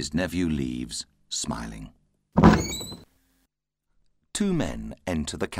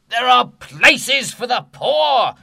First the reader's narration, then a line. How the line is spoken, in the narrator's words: he shouts